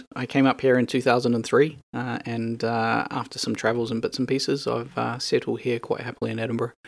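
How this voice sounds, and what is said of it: New Zealand accent. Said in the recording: “my accent will give away. I'm not local. I am from New Zealand.”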